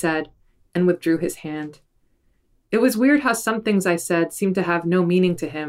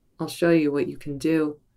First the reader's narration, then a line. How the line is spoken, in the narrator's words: he said in the suave voice